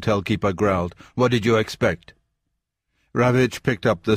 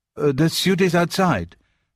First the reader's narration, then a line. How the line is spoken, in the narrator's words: stammered the porter